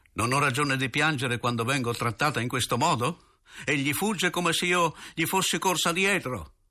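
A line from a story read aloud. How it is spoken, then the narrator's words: Shouted, then exhausted. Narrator (Italian): Di nuovo aveva gridato, ma dallo sforzo fu subito spossata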